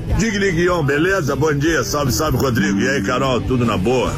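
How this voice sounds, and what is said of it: Booming thunderous voice. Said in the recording (Portuguese): “voz de trovão”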